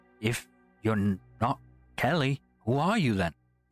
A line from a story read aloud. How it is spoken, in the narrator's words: I then got goose pimples up and down my arms and said with a little stutter in my voice